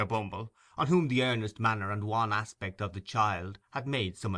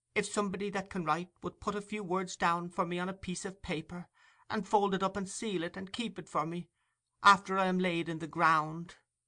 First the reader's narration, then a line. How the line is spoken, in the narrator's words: faltered the child